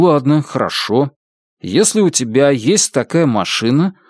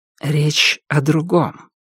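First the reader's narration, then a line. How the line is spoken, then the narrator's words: Soft, gentle. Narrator (Russian): мягко сказал Алан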